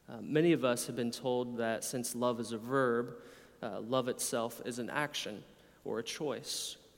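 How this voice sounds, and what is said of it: American accent. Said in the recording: “I'm an American from your accent.”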